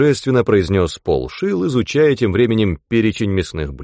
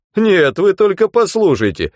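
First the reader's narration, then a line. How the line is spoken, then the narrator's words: Indignant exclamation. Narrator (Russian): негодующе воскликнул Хегланд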